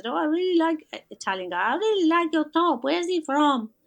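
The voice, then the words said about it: Poor put-on Italian accent. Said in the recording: “It's a crap Italian accent ... It is pretty crap.”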